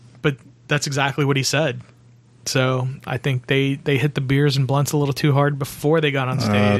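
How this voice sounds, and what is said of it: Usual voice. Nothing is said of it.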